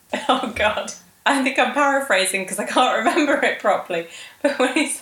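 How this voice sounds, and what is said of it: Usual voice. Nothing is said of it.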